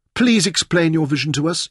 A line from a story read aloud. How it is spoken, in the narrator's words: Eva pleaded